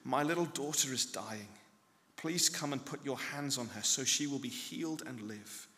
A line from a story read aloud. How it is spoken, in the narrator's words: He pleaded earnestly